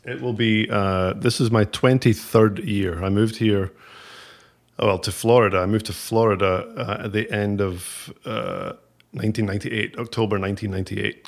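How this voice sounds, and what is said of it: Northern accent. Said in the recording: “it's definitely north. It's definitely a northern accent.”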